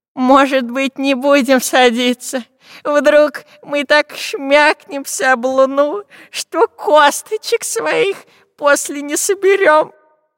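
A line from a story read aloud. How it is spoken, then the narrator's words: Whimpering. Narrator (Russian): захныкал Длинноносый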